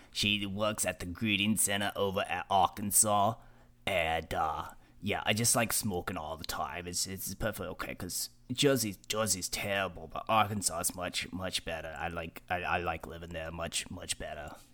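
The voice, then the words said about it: Raspy long-time smoker's voice. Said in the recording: “she smoked for 50 years. And that's why she talks like this.”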